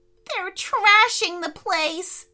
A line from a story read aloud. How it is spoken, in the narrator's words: squealed Benedict